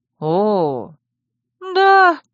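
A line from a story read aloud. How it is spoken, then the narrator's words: Penitent sigh. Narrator (Russian): покаянно вздохнула белка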